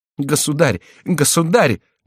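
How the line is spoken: Exclamation. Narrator (Russian): воскликнула Маргарита

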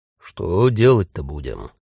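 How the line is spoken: Almost angry question. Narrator (Russian): спрашивает Стефан и почти сердито добавляет

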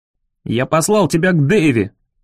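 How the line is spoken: Barked. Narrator (Russian): рявкнул

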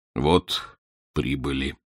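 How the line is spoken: Hollow, muffled voice. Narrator (Russian): глухим голосом сказал подошедший Данила

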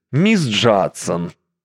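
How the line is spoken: Imposing, icy. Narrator (Russian): внушительно произнес он ледяным тоном

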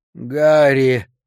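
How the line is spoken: Unpleasant creaky call. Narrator (Russian): позвал я неприятным скрипучим голосом

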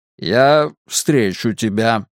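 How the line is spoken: Strange-toned repetition. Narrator (Russian): повторил Мунк странным тоном

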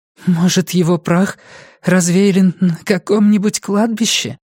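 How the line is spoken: Hoarse. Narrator (Russian): хрипло предположила Сага

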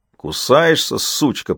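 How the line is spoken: Growled. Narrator (Russian): прорычал голос

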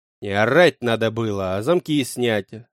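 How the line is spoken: Growled snap. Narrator (Russian): рыкнул на них я

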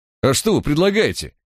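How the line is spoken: Barking retort. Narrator (Russian): рявкнул в ответ Барк

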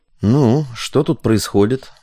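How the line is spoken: Muttered. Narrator (Russian): буркнул Панов

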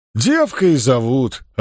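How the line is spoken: Answer then loud laughter. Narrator (Russian): ответил он, наконец, и захохотал

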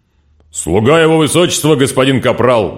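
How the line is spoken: Robot barking loudly. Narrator (Russian): гаркнул робот

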